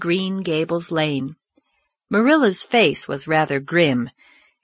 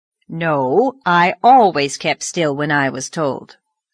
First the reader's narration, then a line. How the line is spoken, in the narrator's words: said Marilla, trying to speak sternly, albeit she felt her heart waxing soft within her under Davy's impulsive caresses